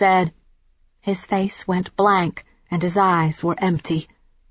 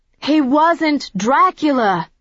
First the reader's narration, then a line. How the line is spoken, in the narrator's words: I said as clearly and loudly as I could